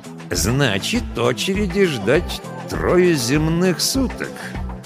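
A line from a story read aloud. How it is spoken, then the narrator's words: Ominous tone. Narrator (Russian): нехорошим голосом уточнил он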